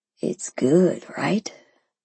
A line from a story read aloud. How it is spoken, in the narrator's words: he whispered